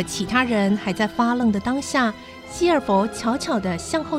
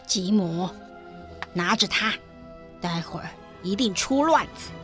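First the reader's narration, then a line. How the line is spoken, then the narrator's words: Whisper. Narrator (Chinese): 希尔佛小声地说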